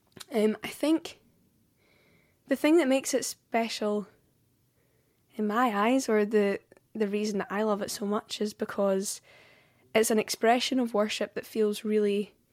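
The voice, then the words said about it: Scottish accent. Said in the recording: “I'm singing in my own accent, which so often in Scotland we don't get to do”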